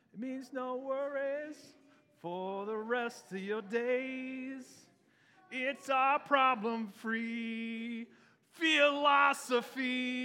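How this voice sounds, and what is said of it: Singing in a Pumbaa character voice. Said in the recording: “I did a pretty decent Pumbaa impression”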